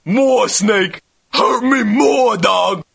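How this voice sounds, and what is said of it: Exaggerated stereotyped cartoon character voice. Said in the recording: “he has a black voice. And it's kind of blatant, because it's the stereotypical black voice, really.”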